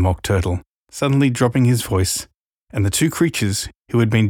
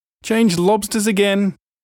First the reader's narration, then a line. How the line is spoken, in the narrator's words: yelled the Gryphon at the top of its voice